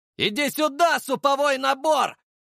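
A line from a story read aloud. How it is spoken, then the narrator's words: Shouted while running. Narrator (Russian): выкрикнул я, несясь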